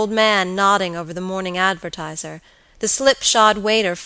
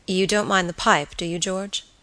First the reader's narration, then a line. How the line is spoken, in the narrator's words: his friend asked quietly